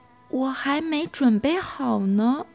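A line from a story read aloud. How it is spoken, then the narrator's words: Quiet, hushed. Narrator (Chinese): 他小声的说道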